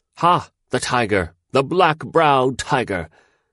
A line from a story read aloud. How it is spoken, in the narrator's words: all the men laughed fiercely, and they took up the cry, and they shouted